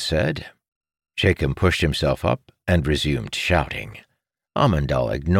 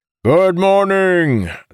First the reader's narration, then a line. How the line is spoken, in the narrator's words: the officer said in a booming voice